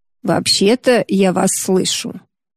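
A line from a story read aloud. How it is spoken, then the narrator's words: Grumbled. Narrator (Russian): проворчала Юдора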